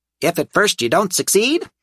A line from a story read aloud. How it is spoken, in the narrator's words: Bob said cheerfully